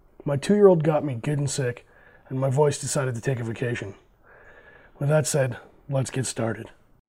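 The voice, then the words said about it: Slightly raspy, sick-sounding voice. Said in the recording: “my voice is a little raspy”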